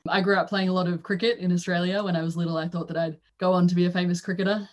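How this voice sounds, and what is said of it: Australian accent. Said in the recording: “You might be able to tell that I have an Australian accent.”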